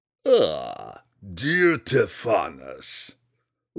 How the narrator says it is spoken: Ulgulu purred in an odd sort of grating sound

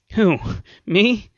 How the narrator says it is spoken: The engineer grinned nervously

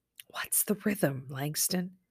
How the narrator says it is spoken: Early closed her eyes and whispered

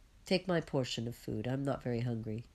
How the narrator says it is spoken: says the zealot

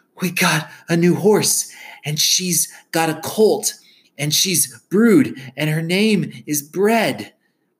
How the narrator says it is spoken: In between gasps, he was hollering

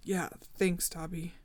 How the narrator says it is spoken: said in a thick voice

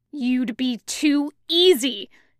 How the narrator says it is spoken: Zhang Cheng growls

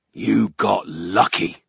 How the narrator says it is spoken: the ogre growled

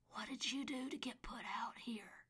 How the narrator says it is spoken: couldn't stand it anymore and whispered

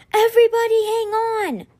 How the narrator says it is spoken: shouted a muffled

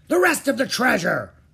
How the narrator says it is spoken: roared Captain Bones

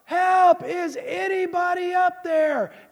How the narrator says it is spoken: he yells louder

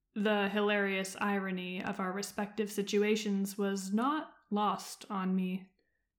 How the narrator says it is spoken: he said dryly

